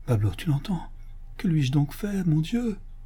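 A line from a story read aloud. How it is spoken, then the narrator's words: Murmuring. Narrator (French): murmura Don Diego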